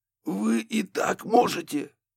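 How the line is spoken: Hoarse after throat-clearing. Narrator (Russian): Прокашлившись, сипло уточнил Барри

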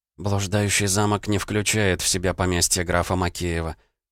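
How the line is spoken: Muttered. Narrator (Russian): пробормотала Анастасия

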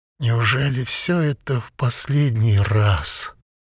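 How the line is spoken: Slow monotonous reading. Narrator (Russian): Бабер читал медленно и монотонно

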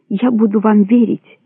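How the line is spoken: Plain. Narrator (Russian): сказала она

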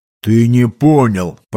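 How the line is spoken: Booming drone. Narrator (Russian): прогудел оруженосец

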